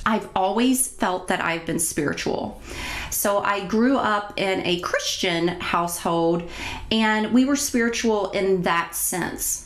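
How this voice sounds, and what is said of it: Slight Kentucky country twang. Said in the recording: “a little bit of a country twang or an accent”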